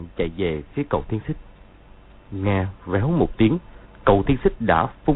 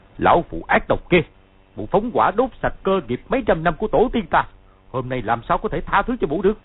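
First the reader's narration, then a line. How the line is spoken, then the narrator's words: Laughing then shouting. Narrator (Vietnamese): hắn cười to rồi quát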